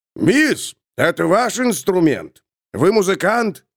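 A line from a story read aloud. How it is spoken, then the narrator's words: Bearded man shouting over noise. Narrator (Russian): Прокричал сквозь шум какой-то мужчина с длинной нечесанной бородой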